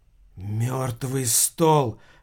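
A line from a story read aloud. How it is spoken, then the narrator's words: Shocked whisper. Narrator (Russian): прошептала Агата потрясенно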